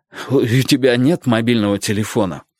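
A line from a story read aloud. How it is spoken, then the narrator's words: Hoarse question. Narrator (Russian): хрипло спросил Ким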